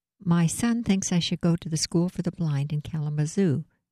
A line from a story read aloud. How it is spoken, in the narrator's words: said evenly